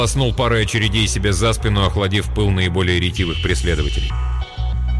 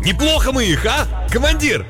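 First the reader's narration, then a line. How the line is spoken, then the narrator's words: Excited, near shout. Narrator (Russian): Возбуждение от неслыханной удачи заставило его едва ли не прокричать эти слова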